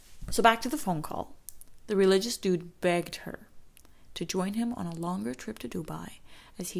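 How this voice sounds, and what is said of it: Usual voice. Nothing is said of it.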